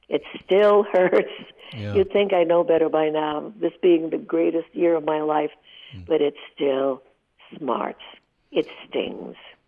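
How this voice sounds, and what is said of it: Teary, emotional voice. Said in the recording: “even now as I'm speaking, I get teary.”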